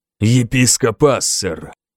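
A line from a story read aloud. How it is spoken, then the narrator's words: Angry. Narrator (Russian): бросил я сердито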